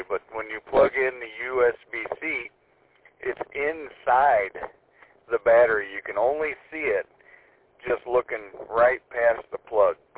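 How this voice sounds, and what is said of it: Hoarse, fading voice. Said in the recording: “I'm losing my voice today”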